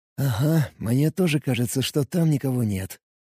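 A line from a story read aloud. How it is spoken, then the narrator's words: Whisper. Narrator (Russian): прошептал я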